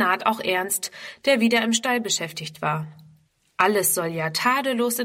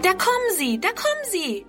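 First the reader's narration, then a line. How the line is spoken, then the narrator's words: Calling out. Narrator (German): ruft Friedrun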